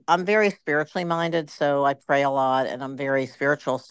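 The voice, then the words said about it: Baltimore accent. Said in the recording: “I have this Baltimore accent.”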